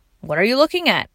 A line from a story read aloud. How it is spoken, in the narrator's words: asked Curtis